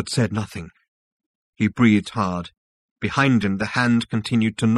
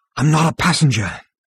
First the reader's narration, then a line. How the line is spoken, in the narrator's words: panted Zaphod